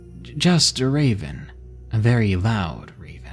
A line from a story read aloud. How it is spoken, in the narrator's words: He replied shakily